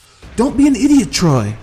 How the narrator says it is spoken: yelled Cubby

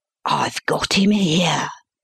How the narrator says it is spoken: he whispered

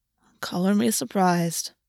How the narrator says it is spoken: Kabiri said quietly

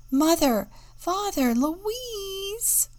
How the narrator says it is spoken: She cried

